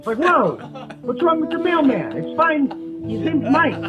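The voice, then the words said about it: Yelling. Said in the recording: “I'm yelling in my car about this.”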